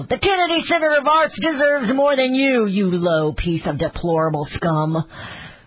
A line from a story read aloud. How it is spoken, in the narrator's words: She yelled